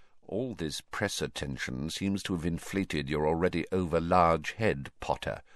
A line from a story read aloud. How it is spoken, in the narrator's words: said Snape quietly